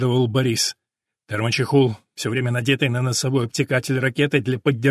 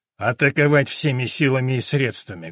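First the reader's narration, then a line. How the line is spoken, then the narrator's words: Muffled, over phone. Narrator (Russian): глухо прозвучало в трубке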